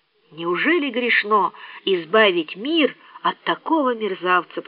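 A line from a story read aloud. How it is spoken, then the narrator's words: Whisper. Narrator (Russian): прошептала она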